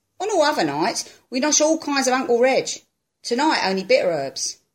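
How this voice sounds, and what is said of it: East End London Cockney accent. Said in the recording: “I'm from the East End of London. And I'm speaking with four questions with an East End of London Cockney accent.”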